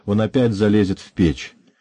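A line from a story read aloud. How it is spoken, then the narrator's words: Good-natured cheerful teasing. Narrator (Russian): Моя молодка сказала добродушно и весело подтрунивая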